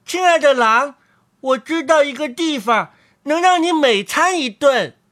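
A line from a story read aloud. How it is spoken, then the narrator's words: Muffled call from inside. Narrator (Chinese): 他在狼肚子里叫道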